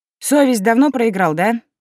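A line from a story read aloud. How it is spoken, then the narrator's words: Unsurprised snort. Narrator (Russian): ничуть не удивившись, хмыкнула я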